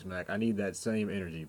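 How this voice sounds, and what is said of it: Imitates another person's voice. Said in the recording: “in my Shannon Sharp voice”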